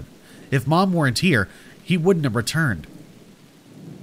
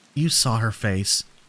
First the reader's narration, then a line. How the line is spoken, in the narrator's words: I whispered